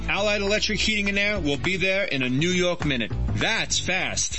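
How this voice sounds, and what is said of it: New York accent. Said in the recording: “people still ask me if I'm from New York ... You don't hear it, do you? ... What accent?”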